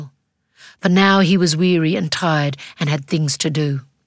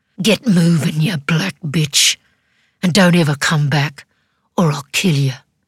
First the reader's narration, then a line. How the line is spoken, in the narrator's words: hissed through clenched teeth